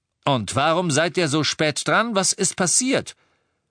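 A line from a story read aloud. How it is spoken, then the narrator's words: Almost angry. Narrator (German): Lupin hörte sich fast an, als wäre er wütend auf Tonks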